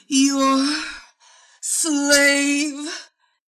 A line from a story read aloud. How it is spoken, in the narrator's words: she gasped, orgasms holding her captive